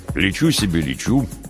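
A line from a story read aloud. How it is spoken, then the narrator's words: Amused smirk. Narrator (Russian): Скиф усмехнулся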